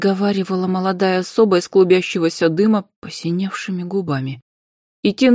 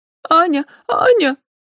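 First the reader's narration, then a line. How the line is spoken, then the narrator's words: Boy calling, sobbing. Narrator (Russian): всхлипывая, звал мальчик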